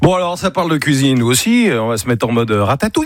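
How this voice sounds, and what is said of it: French spoken with English accent. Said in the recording (French): “t'avais un accent anglais de merde”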